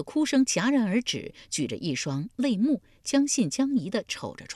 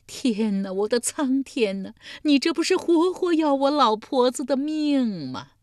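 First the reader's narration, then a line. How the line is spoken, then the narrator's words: Old woman wailing. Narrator (Chinese): 老妪几乎又是哭昏过去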